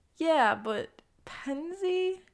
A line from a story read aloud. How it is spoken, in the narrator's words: He laughs again